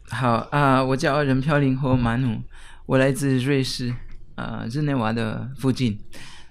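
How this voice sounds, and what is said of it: Foreign accent speaking Mandarin. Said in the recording (Chinese): “这位来宾讲话的口音有一点特殊”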